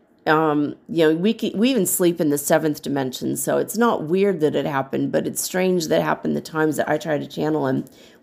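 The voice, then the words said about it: Slightly strained, swollen-throat voice. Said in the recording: “with my throat being swollen, you can maybe tell, and you can maybe hear it in my voice that my throat is swollen a little bit ... talking too much to people”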